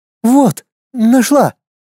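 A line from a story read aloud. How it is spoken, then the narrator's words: Stalling exclamation. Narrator (Russian): воскликнула принцесса, стараясь хоть еще немного затянуть время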